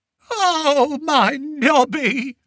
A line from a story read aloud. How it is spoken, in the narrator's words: she wailed